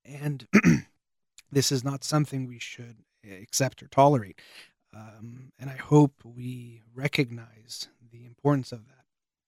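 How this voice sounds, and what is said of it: Voice giving out, strained. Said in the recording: “It might sound like I'm getting emotional. I'm more losing my voice”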